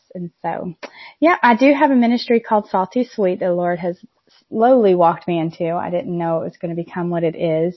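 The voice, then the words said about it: Southern American accent. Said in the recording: “the Southern accent is from”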